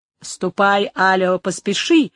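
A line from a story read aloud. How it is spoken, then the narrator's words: Exclamation. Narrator (Russian): воскликнул маркиз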